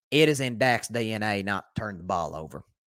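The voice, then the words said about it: Imitates another person's voice. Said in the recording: “Let me say that in Jerry's accent.”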